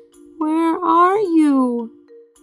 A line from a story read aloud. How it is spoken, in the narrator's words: Stellaluna squeaked